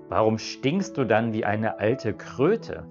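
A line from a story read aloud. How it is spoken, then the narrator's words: Plain question. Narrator (German): fragte es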